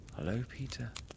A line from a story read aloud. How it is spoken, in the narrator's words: she replied faintly